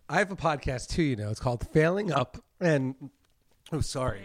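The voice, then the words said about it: Choked-up, emotional voice. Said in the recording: “he got choked up ... I got a little choked up”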